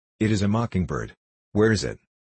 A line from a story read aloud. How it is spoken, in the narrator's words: Rose laughed also, and, forgetting her woes, saying eagerly